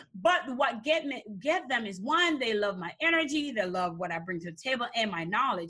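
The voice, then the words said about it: Foreign accent in English. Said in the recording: “I have an accent. ... I'm from another country.”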